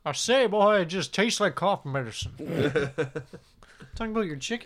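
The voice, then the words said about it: Cartoon rooster voice mixed with Scottish. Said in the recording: “Is that your impression of him? ... Foghorn Leghorn mixed with Sean Connery”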